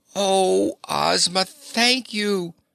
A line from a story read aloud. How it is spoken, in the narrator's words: exclaimed Ozana